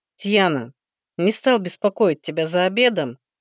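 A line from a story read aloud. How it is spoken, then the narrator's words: Hesitant. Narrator (Russian): Неуверенно начал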